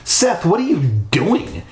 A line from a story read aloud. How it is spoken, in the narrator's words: she demanded angrily